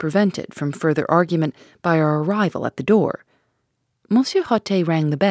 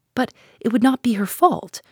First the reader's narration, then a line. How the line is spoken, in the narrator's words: cried with rising indignation